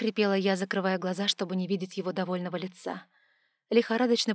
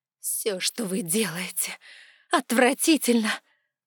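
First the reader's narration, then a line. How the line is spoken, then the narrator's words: Whispered through teeth. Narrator (Russian): прошептала я сквозь зубы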